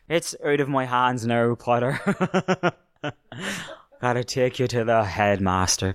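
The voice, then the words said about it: Put-on Irish accent as McGonagall. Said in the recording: “For the sake of an accent I can mildly do, from now on, McGonagall's going to be Irish.”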